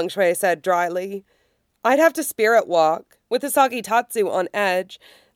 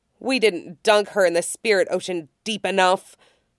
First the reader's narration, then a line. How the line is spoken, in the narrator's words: Long Shui snarled